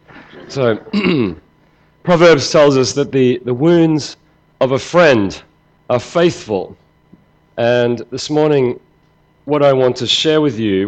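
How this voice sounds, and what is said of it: Hoarse, croaky, fading voice. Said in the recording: “I'm losing my voice ... croaking”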